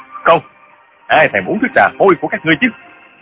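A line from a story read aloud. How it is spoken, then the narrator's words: Shouting. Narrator (Vietnamese): Trương Du Kỳ quát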